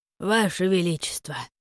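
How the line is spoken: Quiet call. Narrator (Russian): Негромко окликнули меня

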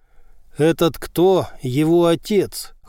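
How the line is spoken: Cold male voice. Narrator (Russian): холодно произнес мужчина

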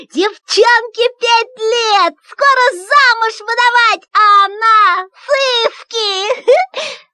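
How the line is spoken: Frantic, crazed yelling. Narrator (Russian): как будто у меня началось уже воспаление мозга, и я сошел с ума и орал

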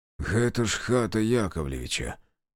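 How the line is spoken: Muttering. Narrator (Russian): пробормотал Демьян

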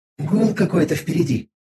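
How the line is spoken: Whisper. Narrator (Russian): прошептала Виза

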